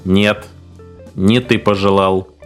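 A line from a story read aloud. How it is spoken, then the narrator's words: Creaky mechanical voice. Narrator (Russian): скрипучим механическим голосом ответила машина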